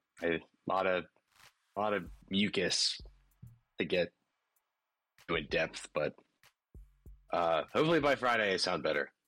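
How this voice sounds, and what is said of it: Hoarse voice. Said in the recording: “My voice is very hoarse.”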